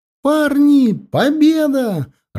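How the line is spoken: Joyful shout. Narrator (Russian): радостно закричала она

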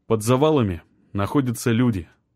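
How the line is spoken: Calm reply. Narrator (Russian): спокойно ответил Артем

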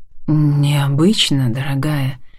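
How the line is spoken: Candid admission. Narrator (Russian): Честно признается Лиам

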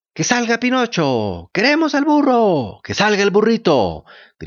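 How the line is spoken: Moved children shouting. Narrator (Spanish): gritaban los niños, conmovidos por el triste incidente

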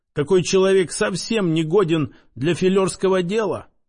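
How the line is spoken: Plain. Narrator (Russian): спросил Озерский

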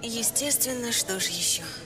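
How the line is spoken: Heavy sigh. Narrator (Russian): Я тяжело вздохнула

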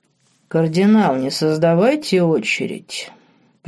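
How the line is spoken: Deep bass from behind. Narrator (Russian): пробасил за спиной граф Спенсер

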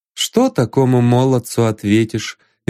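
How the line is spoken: Sad smile. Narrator (Russian): Вера Андреевна только улыбнулась печально

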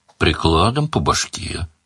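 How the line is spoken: Gloomy suggestion. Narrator (Russian): мрачно предложил Бонни

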